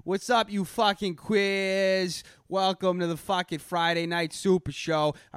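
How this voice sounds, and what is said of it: Exaggerated Boston accent. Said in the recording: “played up my Boston accent ... go full fucking Goodwill Hunting ... I'm from fucking Boston”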